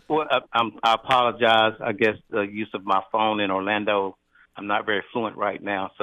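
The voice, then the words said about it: Nasal, congested voice. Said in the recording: “has my sinuses doing ... you sound nasally. ... I don't have my professional radio voice”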